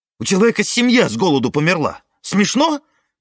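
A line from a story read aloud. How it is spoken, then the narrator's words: Shouting. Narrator (Russian): кричала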